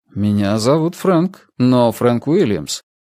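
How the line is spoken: Calm, steady objection. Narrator (Russian): возразил я, сам удивившись тому, насколько спокойно и бестрепетно прозвучал мой голос

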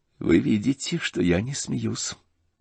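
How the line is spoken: Sad and stern. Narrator (Russian): грустно и строго проговорила Анастасия Филипповна

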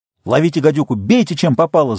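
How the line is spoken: Blaring megaphone shout. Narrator (Russian): заорал мегафон

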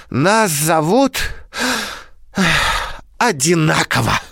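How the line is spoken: Sighing reply. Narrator (Russian): вздохнув, ответил Павлик

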